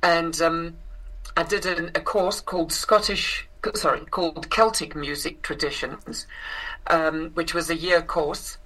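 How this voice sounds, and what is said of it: South African accent. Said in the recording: “I grew up in South Africa, which is where I inherited this accent.”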